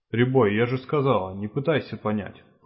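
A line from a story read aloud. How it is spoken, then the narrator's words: Snorting. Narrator (Russian): фыркнула Норрис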